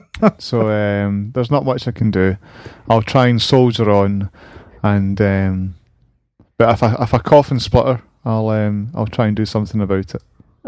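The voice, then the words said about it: Rough, slightly hoarse voice. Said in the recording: “You sound a bit rough. ... I've got a little bit of a tickly throat.”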